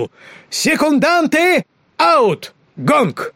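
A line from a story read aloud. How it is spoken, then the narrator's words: Full-throated shout. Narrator (Russian): Фукс во все горло крикнул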